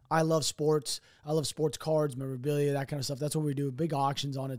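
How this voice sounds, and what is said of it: Strained, worn-out hoarse voice. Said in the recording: “my voice is pretty jacked up. Uh, it sounds jacked ... my voice sounds like this because I'm talking every night for like six hours straight”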